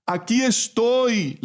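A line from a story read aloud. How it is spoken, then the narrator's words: Father shouting back. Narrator (Spanish): le gritó a su vez el padre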